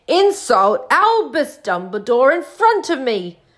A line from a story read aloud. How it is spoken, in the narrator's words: thundered